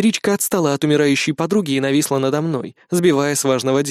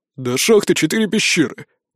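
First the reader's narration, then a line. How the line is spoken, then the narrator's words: Sullen grumble. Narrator (Russian): пробурчал насупившийся Фер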